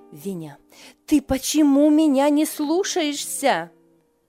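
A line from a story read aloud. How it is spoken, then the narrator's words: Shouted. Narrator (Russian): крикнула она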